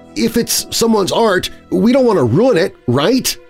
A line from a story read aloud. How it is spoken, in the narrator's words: I pleaded, trying to get him to not go any further